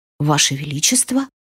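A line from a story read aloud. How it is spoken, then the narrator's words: Silent mouthed breath. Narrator (Russian): одними губами беззвучно выдохнула Олли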